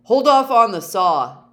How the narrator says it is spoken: Dave yelled

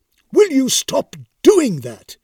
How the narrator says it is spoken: barked the startled wraith

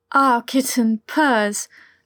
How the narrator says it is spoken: Eric said breathlessly

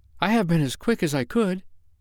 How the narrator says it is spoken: she panted

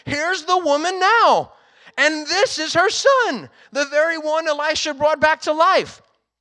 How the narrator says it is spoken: Gehazi exclaimed

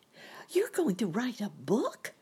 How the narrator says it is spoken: exclaimed Sammy, surprised like

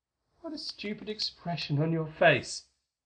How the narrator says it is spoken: Vivian laughed again, said teasingly

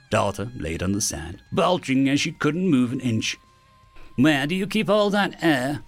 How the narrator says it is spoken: New asked dryly

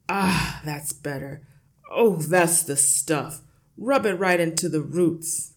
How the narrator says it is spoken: accompanied by loud masculine grunts and heavy breathing in gasps

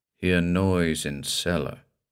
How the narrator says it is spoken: said Tanager

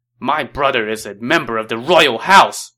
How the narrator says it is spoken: Zhang Fei shouted

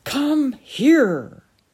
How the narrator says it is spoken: he stood up in a passion and exclaimed

